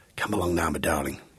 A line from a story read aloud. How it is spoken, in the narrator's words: he whispered